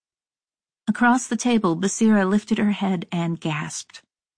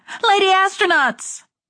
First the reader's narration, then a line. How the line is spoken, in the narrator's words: I shouted from my husband's arms